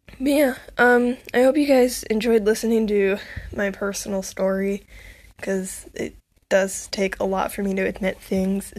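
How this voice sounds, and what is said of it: Congested, sniffly voice from a cold. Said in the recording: “my voice sounds weird, or if, like, I'm sniffing a lot, because, like, I have a slight cold, and my throat is a little bit sore”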